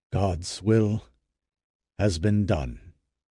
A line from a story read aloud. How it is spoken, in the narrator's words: he next said, solemnly, in a tone to make each listener know he had no hope more of finding his people